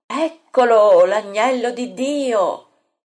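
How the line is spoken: Shouted from afar. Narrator (Italian): getta il grido

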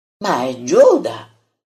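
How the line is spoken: Exclamation. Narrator (Italian): esclama il Taddeo

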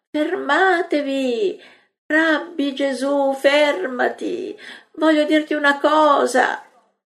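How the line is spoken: Woman's pleading cries. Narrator (Italian): griti della donna che supplica

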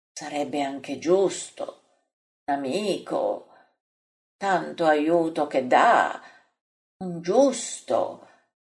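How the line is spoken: Murmuring. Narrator (Italian): mormora Bartolomeo

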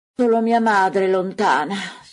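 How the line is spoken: Sighed. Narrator (Italian): sospira Giacomo di Alfeo

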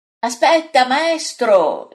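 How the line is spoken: Shouting after someone. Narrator (Italian): gli grida dietro Pietro

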